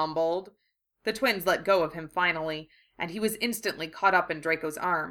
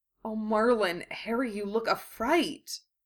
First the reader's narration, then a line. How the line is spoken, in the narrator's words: Draco murmured